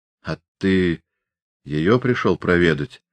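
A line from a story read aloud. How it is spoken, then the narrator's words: Quiet but clear question. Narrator (Russian): тихо, но внятно спросил Степан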